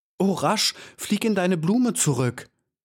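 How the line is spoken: Called out. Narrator (German): rief

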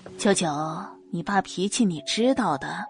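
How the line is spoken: Awkward laugh, feigned gentleness. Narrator (Chinese): 柳如梅讪笑几声，竭力装作温柔明理的样子，对萧九九说道

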